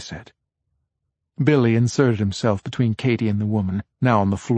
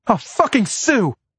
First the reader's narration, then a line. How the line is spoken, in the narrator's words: Ramona cried